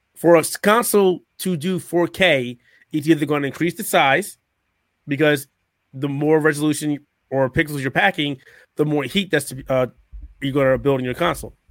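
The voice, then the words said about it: Voice mostly gone, hoarse. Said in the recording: “My voice is really gone. So that's going to be odd.”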